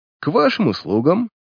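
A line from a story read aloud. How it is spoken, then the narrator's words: Mocking tone. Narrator (Russian): насмешливо поклонился Дик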